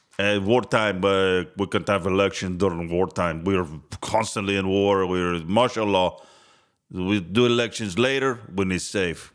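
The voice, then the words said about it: Put-on Russian-Mexican accent. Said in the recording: “That's a Russian-Mexican accent right there.”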